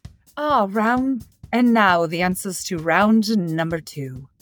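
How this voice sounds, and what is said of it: Poor put-on English accent. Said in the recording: “I was going to do an English accent and I lost it again ... That's terrible.”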